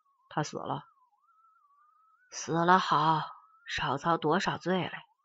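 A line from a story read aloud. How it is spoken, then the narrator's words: Flat, indifferent. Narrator (Chinese): 淡淡的对村人们说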